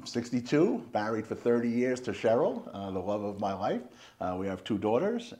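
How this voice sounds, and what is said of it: Slight New York accent. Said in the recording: “a little bit of maybe a New York accent ... Slight New York accent.”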